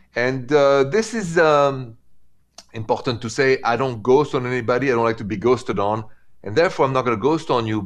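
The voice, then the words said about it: French accent speaking English. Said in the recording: “in English, the accent is French.”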